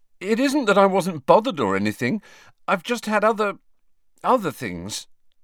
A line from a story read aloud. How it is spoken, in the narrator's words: he said a little desperately